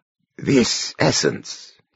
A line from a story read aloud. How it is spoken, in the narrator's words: he murmured